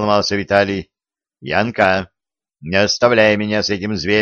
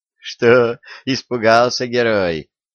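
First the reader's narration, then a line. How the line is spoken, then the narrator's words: Laughing. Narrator (Russian): рассмеялась Янка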